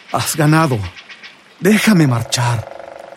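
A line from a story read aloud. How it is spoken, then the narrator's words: Trembling plea. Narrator (Spanish): Con voz temblorosa suplicó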